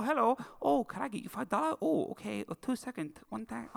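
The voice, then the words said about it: Restrained mock Chinese accent. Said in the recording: “doing a full-on Chinese accent ... since you're doing an impression of her ... feel free to lean into it. I feel like you've held back there.”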